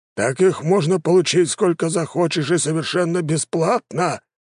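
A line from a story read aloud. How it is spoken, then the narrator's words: Exclamation, old patriarch. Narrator (Russian): воскликнул патриарх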